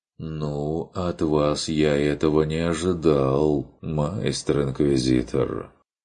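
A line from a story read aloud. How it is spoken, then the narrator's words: Reproachful drawl. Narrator (Russian): упрекающе протянул фон Эбенхольц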